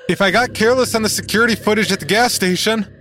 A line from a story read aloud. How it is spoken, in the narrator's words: shouts from the bathroom